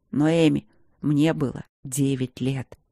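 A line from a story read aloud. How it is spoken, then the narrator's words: Quiet speech. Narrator (Russian): тихо сказал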